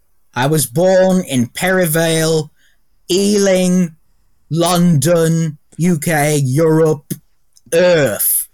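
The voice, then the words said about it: Poor attempt at British accent. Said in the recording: “at least attempting a British accent ... it's not Cockney by any strength. I don't think it's even human.”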